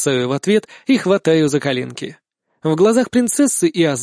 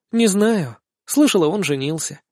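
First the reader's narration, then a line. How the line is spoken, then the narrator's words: Quiet reply. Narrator (Russian): отвечает Ангелина тихо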